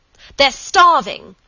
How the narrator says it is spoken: she shouted

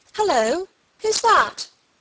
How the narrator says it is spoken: she exclaimed

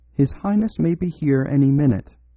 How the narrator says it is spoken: said

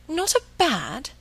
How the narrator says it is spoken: she exclaimed

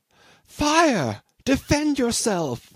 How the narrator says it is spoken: the girl outside cried in an agonizing voice

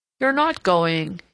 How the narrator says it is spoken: exclaimed in his immense surprise

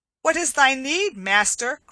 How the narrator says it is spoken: cried Will Stutely

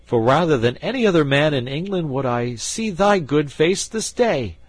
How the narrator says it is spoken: cried he

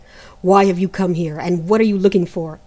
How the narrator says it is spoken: asked Great January crossly

